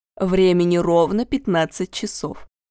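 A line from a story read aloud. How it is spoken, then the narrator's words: Dry reply. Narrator (Russian): сухо ответила Атаманова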